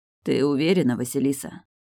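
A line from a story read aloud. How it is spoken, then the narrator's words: Hoarse baritone. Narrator (Russian): Сиплый баритон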